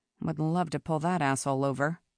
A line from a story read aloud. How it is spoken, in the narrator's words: muttered